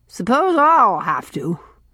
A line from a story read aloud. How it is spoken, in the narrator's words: grunted Mrs